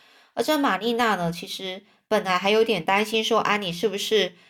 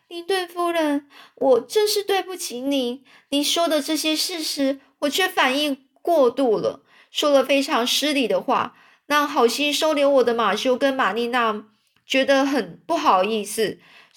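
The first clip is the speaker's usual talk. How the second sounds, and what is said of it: Trembling, shaky voice. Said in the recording (Chinese): “用颤抖的声音说”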